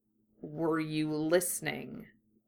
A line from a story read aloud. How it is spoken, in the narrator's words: he asked more quietly